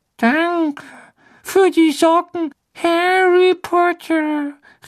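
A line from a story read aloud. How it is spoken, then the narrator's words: Dejected call from afar. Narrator (German): rief niedergeschlagen vom Herd herüber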